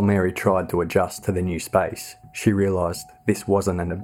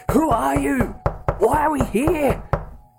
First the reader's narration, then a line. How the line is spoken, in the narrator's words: Mary pounded on the door, screaming